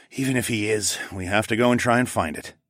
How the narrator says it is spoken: I said with a sigh

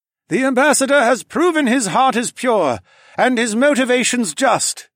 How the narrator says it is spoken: the leader called out over his people

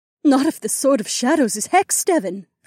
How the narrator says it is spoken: Aliona gasped

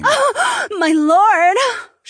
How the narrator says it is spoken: She gasped and giggled

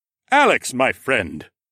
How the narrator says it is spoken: He boomed

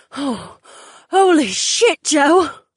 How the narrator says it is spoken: panted with wide eyes

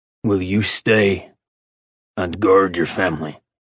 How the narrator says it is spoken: Orion snarled at Asheron for a reminder he despised him for

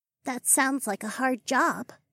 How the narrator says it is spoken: Denali said in a soft voice

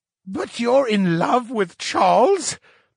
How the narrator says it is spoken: the scientist squealed

